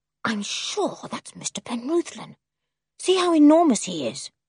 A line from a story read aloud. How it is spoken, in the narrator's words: Julian hissed into Dick's ear